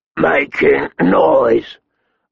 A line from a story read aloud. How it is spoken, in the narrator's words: Maud growled, with blood in his eyes